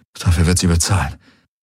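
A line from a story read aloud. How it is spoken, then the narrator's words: Muttering to oneself. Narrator (German): murmelte Garland vor sich hin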